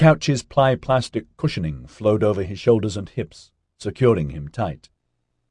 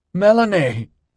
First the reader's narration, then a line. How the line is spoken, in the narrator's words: a horrified Mark cried